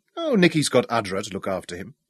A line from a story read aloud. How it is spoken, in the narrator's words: chuckled